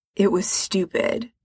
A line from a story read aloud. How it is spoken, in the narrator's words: Frank mutters